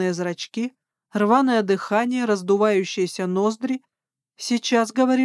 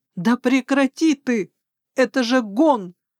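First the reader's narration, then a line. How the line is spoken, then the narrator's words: Alarmed woman's cry. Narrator (Russian): вскрикнула я, когда княжич принялся задирать мне юбки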